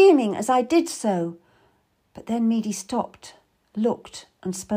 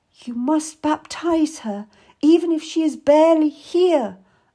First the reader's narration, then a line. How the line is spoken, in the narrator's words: I gasped